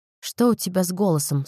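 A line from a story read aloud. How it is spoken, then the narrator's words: Plain. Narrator (Russian): спросила я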